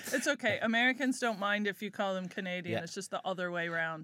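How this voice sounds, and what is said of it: American accent. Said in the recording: “you have a American accent”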